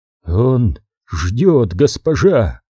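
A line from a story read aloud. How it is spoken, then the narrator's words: Strained, exhausted. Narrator (Russian): Из последних сил выдавил из себя Эгион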